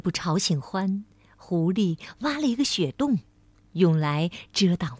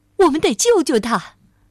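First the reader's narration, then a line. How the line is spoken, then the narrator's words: Shouting. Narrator (Chinese): 狐狸喊道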